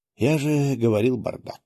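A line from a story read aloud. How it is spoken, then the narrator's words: Sighing. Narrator (Russian): вздохнул я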